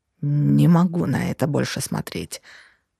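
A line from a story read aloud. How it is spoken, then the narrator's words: Sudden growl, husband. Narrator (Russian): рыкнул вдруг муж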